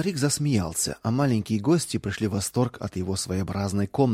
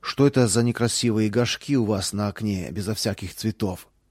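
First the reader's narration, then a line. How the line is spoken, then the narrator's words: Plain. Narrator (Russian): спросил Роланд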